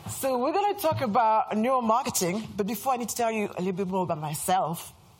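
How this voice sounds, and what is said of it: French accent. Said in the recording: “As you can hear from my accent, I'm French.”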